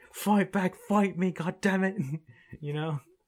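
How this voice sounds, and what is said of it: Good put-on British accent. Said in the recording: “It's a good accent, by the way. ... it's like a British accent ... you did a good accent on that”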